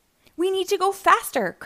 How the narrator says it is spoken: cried

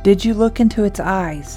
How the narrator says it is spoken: his papa asked

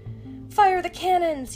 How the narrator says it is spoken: yelled Shang

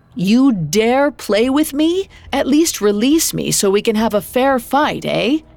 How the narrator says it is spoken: he called out to the figure ahead

